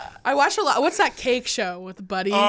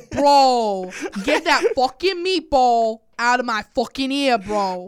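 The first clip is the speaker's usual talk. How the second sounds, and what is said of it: Put-on New Jersey accent. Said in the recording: “you're hitting the Jersey ... You, you were just full body became a New Jersey accent. That was incredible ... I don't know if that was like just Guido, like Italian Jersey, or if that was Jersey”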